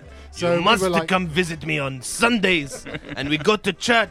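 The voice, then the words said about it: Mock German accent. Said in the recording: “that's not a good German accent”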